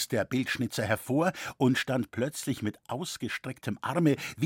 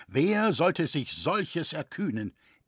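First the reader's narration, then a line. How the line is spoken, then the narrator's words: Solemn call. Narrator (German): rief feierlich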